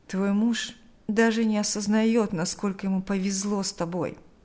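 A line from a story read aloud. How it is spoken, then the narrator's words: Sighing. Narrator (Russian): вздохнул Берни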